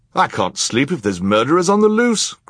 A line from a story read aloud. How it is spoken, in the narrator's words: cried another guest